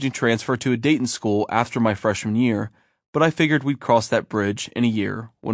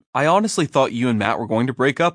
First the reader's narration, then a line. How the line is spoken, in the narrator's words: I said